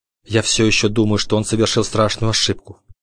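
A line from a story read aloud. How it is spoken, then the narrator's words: Low voice. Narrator (Russian): вполголоса произнес Бруно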